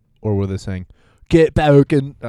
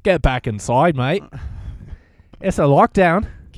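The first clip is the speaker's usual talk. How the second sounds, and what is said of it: Weak put-on Australian accent. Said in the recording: “I can't do an Australian accent at all ... You sound kind of like their prime minister or whatever ... Yeah, pretty close. You're not too far off.”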